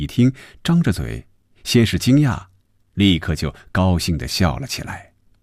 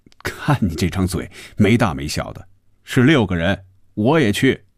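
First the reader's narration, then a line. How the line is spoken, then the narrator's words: Smiling. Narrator (Chinese): 红军笑着说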